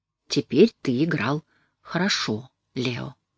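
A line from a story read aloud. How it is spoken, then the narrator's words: Plain. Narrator (Russian): сказала мать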